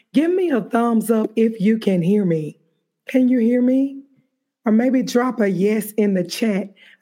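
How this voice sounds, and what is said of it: Slightly raspy voice. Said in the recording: “my voice is a little bit raspy,”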